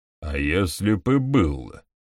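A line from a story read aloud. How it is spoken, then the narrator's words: Grumble. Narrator (Russian): пробурчал Бакстер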